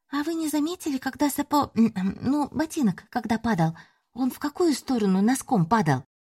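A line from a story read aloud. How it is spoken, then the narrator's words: Squeaked. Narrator (Russian): пискнула Ленка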